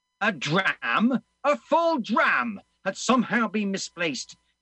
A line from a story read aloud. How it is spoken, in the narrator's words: he shouted at Barry